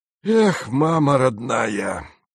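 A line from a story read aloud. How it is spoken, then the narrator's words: Speech, whistle through teeth. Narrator (Russian): сказал и присвистнул сквозь зубы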